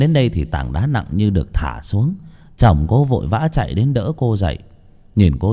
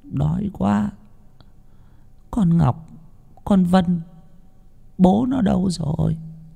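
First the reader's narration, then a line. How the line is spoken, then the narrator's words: Weak, panting, soft. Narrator (Vietnamese): Cô ba nằm hổn hển, rên rỉ một hồi rồi khe khẽ nói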